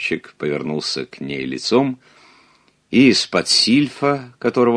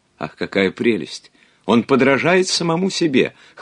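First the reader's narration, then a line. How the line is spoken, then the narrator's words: Delighted exclamation. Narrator (Russian): воскликнула Рахиль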